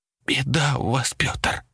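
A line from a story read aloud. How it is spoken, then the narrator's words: Hoarse wheeze. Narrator (Russian): прохрипела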